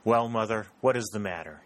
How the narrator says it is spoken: he asked

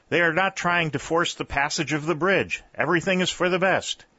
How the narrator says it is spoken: shouted Langdon

